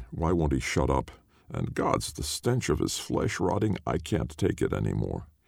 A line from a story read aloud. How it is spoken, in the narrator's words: muttering